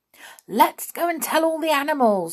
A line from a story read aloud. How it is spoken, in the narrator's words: shouted a third